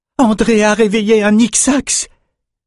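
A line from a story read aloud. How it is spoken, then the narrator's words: Exclaimed. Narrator (French): s'écria Elsa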